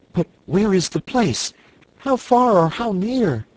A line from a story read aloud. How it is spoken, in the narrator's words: asked Cake anxiously